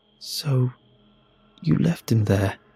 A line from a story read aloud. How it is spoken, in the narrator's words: murmured